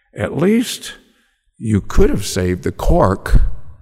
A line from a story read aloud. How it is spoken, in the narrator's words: Ellen sighed